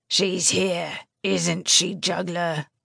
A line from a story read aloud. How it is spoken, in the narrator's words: Blaze growled